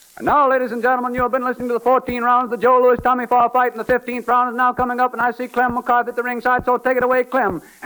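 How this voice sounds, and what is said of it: Imitates a radio boxing announcer. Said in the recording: “my next impersonation is a facsimile broadcast of the 15th round of the Joe Louis Tommy Farr fight with Ed Hill as between the rounds announcer”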